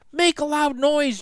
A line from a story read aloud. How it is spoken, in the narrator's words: Jack yelled